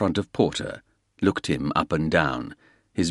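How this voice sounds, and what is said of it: Usual voice. Nothing is said of it.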